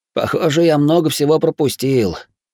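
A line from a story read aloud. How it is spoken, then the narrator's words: Sighing. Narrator (Russian): вздохнул Такихико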